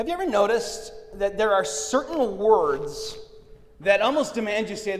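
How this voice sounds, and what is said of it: Usual voice. Nothing is said of it.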